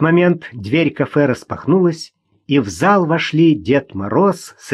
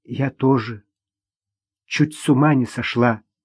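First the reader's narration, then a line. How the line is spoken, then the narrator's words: Barely audible. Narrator (Russian): еле слышно отозвалась Ирина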